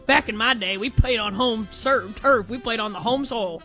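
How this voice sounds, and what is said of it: Grumpy old grandpa voice. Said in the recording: “like a grandpa ... my best Drake Toll impression”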